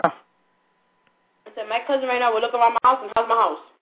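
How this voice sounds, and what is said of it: Talking very fast. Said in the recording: “You're talking too fast.”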